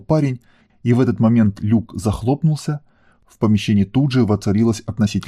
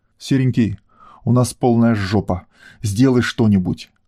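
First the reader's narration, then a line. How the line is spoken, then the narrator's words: Growling woman. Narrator (Russian): прорычала его любимая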